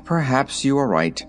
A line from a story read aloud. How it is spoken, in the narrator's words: returned the king with a dismal sigh